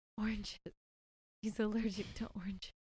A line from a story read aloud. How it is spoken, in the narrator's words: right before she passes out, she whispers